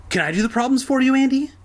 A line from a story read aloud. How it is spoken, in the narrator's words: He asked eagerly